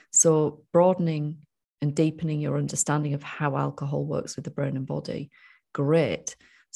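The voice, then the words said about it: Northern English accent. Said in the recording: “you just sound northern when you say great”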